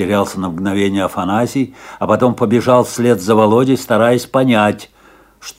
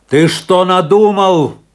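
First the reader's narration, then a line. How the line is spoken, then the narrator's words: Shouting while running. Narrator (Russian): крикнул ему на бегу Афанасий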